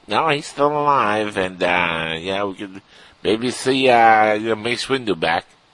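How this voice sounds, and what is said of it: Imitates another person's voice. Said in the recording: “That was my George Lucas impression ... That was pretty good.”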